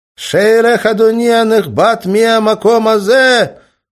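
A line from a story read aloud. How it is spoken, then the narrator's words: Shout. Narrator (Russian): крикнул Жермензон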